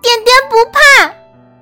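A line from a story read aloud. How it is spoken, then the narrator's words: Loud shout. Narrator (Chinese): 他大叫一声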